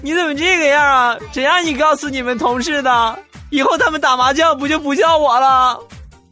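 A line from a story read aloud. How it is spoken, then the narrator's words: Crying and shouting. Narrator (Chinese): 他女朋友听完之后，眼泪喷涌而出，一边哭一边喊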